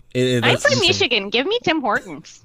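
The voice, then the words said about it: Michigan accent. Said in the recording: “That's good accent though. ... That's what I sound like if I'm not careful.”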